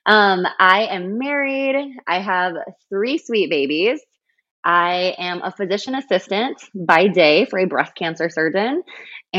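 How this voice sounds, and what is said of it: South Dakota regional accent. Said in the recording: “I live in South Dakota. Yes, that is where the accent is from. I don't apologize.”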